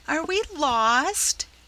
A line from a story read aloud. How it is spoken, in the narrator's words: quavered Rob, clasping his pail in despair